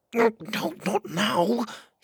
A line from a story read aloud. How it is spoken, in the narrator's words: he whispered